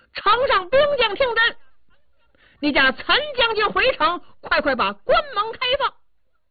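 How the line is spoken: Loud shouting. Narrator (Chinese): 高声喊嚷

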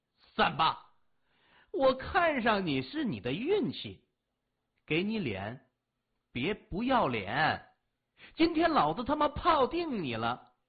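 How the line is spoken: Loud embarrassed. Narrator (Chinese): 黄发青年脸瞬时就通红，他的面子挂不住，大声说

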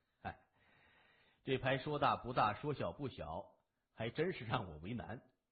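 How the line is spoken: Sighing. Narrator (Chinese): 谢文东叹了一口气

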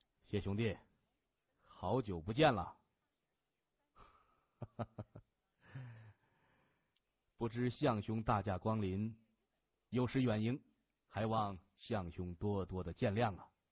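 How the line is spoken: Smiling. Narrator (Chinese): 他嘴角上挑，笑着说

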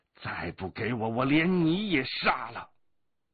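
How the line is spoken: Roaring. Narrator (Chinese): 黑衣人还在咆哮

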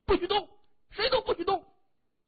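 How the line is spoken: Frightened shout. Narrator (Chinese): 他目光惊恐地看着周围，大声喊着

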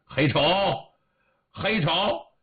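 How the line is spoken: Calling out. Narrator (Chinese): 就喊

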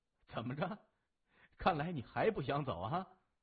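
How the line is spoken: Giggling, teasing. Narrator (Chinese): 笑了，嘻嘻哈哈，呲着小白牙说

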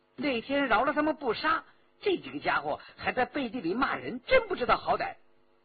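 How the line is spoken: Interjecting. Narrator (Chinese): 周启忍不住插嘴

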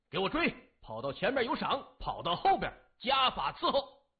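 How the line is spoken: Loud shouting. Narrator (Chinese): 他一挥刀，大声地喊着

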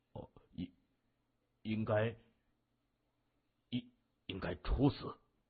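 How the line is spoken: Stunned murmur. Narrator (Chinese): 他张大嘴巴喃喃地说

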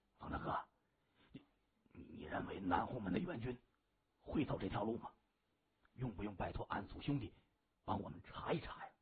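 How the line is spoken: Low question. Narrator (Chinese): 方天画身旁的一名小弟就低声问

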